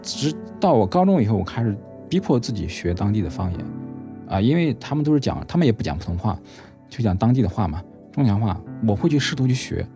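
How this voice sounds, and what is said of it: Northern Henan-accented Mandarin. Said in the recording (Chinese): “口音上肯定是一听就知道的嘛。口音完全不一样了，包括我现在一张嘴，别人就听你是北方口音，哎，是不是河南的啊，或者山东的？...我就是一个在湖北长大，然后呢是河南口音的一个人。”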